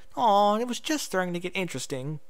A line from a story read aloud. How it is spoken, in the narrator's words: Pinky sighed